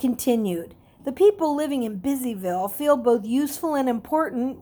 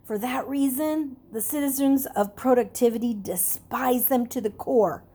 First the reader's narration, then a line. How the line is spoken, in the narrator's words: He lowered his voice to a whisper ... he said